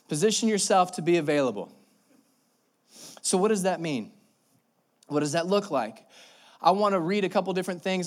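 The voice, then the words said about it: Out of breath, breathless speech. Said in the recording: “I don't know why I'm out of breath right now. That should not be happening, but I am.”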